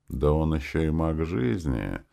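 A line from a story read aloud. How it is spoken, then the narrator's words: Quiet smirk. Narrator (Russian): Тихо ухмыльнулся принц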